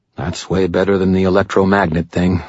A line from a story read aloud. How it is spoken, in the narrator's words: I muttered to myself